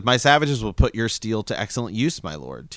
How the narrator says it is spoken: Tyrion replied

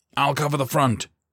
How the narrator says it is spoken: Kowalski barked

